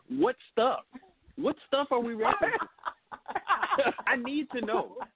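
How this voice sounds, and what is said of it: Imitates another person's voice. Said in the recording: “my best Jonathan Swan impression”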